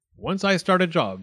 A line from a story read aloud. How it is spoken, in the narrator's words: said the dentist firmly